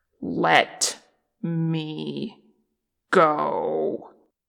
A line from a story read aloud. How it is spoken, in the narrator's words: Che growled, low and deadly